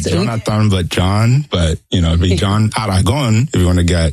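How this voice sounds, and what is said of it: Colombian Spanish accent. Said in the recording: “I like the way you say it too. I love the accent that comes through. You're from Colombia”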